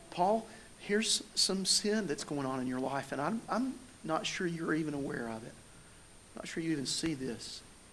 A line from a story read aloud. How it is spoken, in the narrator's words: gently say